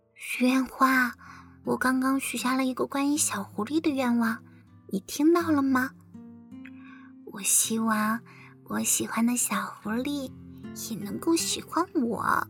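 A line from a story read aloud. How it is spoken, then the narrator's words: Soft whisper. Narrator (Chinese): 小兔子 小声地说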